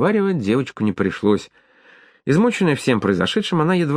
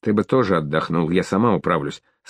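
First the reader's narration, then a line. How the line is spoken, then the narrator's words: Plain. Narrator (Russian): сказала Клавдия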